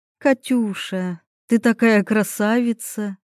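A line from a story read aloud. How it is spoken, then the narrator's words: Cooing. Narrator (Russian): сразу заворковала моя мама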